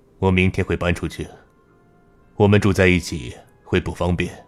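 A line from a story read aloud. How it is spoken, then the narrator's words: Cold. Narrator (Chinese): 展望忽然站起身，冷冷的说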